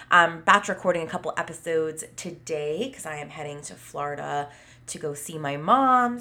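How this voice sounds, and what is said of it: Slightly nasal, congested voice. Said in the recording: “I had COVID, but I am feeling better, still a little nasally. You might be able to hear that in my voice”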